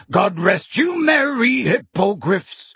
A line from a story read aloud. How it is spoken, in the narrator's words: at the top of his voice